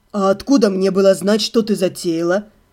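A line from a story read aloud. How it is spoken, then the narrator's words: Calm, sympathetic retort. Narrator (Russian): Спокойно и даже с некоторым сочувствием парировал тот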